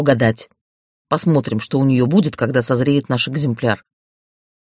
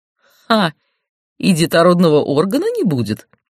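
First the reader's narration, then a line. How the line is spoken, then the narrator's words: Guffawing. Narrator (Russian): хохотнул Эрдан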